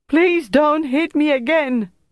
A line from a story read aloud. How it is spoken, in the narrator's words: Bertrand cried